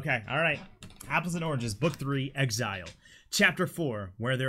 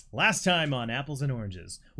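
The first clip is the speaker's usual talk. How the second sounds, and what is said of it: TV announcer voice. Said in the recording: “Announcer voice”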